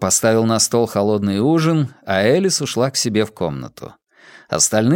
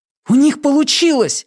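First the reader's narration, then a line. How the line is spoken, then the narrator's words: Joyful exclamation. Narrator (Russian): радостно воскликнул Уайлен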